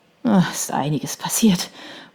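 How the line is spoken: Murmuring. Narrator (German): murmelte sie

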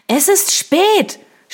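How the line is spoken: Shouting over music. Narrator (German): schrie Eliza über die Musik hinweg

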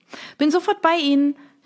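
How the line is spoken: Cheerful call back. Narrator (German): rief Isabelle mit strahlendem Lächeln zurück

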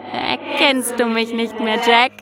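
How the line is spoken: Laughing creature. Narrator (German): lachte das Wesen

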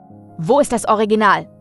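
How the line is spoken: Curt interruption. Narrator (German): unterbrach ihn Arthur zum zweiten Mal, schroff

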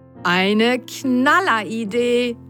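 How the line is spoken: Excited call. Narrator (German): rief Mats begeistert

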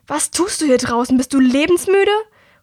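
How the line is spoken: Angry call. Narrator (German): rief ihr eine verärgerte Stimme entgegen

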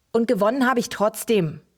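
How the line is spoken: Called from another room. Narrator (German): rief er aus seinem Zimmer

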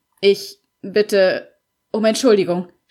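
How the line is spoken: Stammering. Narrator (German): stammelte er

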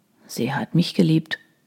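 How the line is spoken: Murmured. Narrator (German): murmelte Troy

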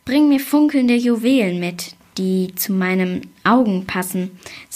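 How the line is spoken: Plain. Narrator (German): sagte die Zweite

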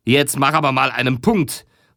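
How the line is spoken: Calling out. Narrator (German): rief Felling

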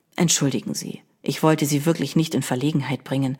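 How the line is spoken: Quiet. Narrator (German): sagte der Fremde leise

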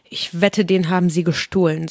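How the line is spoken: Plain. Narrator (German): sagte Alice

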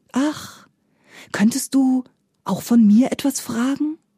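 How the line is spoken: Very gentle rustling. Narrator (German): rauschte es da ganz sanft

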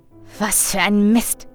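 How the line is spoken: Hiss. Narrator (German): zischte er

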